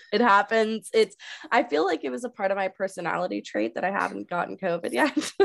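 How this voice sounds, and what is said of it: Slightly altered, weird-sounding voice. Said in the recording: “You can probably hear it in my voice. My voice sounds a little bit different... which is why my voice sounds weird”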